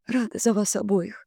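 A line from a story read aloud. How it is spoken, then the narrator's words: Quiet fake sob. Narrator (Russian): я тихо, наигранно всхлипнула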